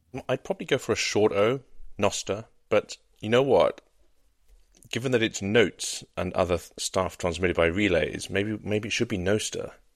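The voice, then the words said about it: British accent. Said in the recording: “With your British accent.”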